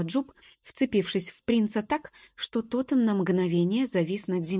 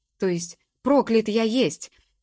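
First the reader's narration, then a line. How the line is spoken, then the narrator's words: Howled in frustration. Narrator (Russian): взвыл от досады Ноа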